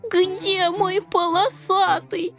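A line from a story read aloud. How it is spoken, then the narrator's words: Tearful whimpering. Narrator (Russian): Захныкал рыжий, размазывая слезы лапкой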